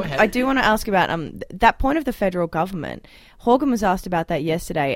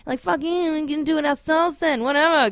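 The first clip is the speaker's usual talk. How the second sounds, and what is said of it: Mocking character voice. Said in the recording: “That was my impression of BC. ... You did that so well. ... I really nailed that character.”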